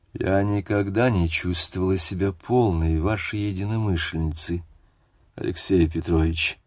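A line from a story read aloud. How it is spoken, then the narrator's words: Very quiet. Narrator (Russian): сказала она очень тихо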